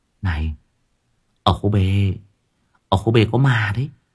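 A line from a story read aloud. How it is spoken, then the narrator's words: Secretive whisper close to ear. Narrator (Vietnamese): Để những người ngồi bàn kế bên không nghe được, chị Hằng ghé sát tai thì thầm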